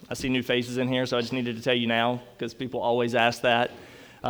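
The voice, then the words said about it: North Carolina Southern accent. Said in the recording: “The accent is from North Carolina.”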